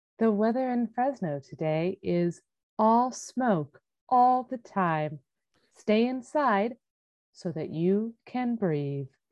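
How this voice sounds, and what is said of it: Mock calm public radio announcer voice. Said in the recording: “my very important PBS public radio voice... You sound like an Alexa to a Xanax.”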